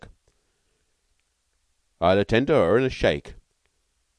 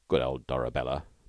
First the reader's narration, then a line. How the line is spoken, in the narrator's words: murmured Stalky